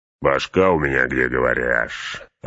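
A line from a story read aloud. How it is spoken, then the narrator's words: Growl. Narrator (Russian): рыкнул Углук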